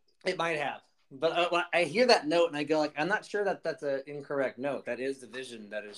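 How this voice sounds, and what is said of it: Usual voice. Nothing is said of it.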